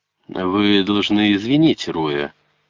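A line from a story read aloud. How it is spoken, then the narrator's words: Soothing tone. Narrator (Russian): сказал Блейн тем же успокаивающим тоном, что и Джек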